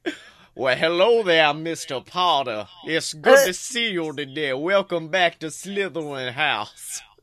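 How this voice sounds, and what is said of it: Put-on Southern accent. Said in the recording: “I would love if every evil Slytherin had a Southern accent.”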